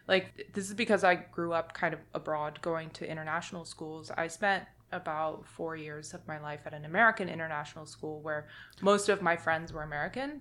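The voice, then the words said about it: American accent. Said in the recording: “my accent is American”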